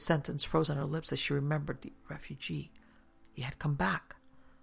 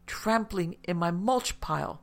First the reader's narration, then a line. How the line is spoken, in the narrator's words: Maria yelled back, equally as exasperated